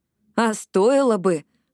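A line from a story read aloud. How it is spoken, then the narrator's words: Enthusiastic exclamation. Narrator (Russian): воодушевленно воскликнула Джинни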